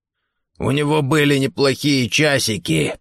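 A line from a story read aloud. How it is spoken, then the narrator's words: Hoarse rasp. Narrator (Russian): прохрипел Гордон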